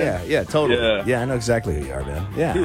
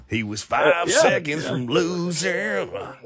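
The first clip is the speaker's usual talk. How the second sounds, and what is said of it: Country twang. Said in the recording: “It's like a country song somewhere ... Get a little twang going on there.”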